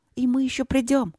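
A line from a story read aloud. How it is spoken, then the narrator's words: Excited, then polite. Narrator (Russian): взволнованно добавила, добавила вежливо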